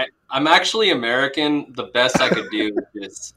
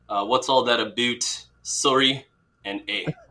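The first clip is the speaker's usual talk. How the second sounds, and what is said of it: Attempted Canadian accent. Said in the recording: “Give us your best Canada accent ... It's pretty good. Pretty good.”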